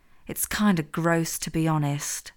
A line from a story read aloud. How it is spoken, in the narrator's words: Hazel muttered into Amelia's ear